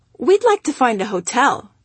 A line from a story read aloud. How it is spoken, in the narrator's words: we answered cheerfully